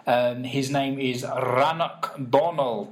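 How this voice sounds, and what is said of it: Put-on Scottish accent. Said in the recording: “I don't know why I put it down a Scottish accent there, but actually that was pretty good, I reckon. ... It was very good.”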